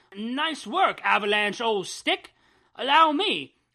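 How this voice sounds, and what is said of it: British-sounding character voice. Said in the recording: “I love the sort of British-y accent that Pyro got.”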